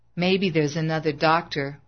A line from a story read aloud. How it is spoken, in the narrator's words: She muttered